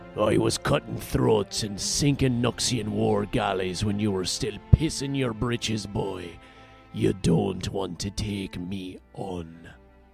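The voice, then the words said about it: Put-on character voice. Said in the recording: “my terrible impression.”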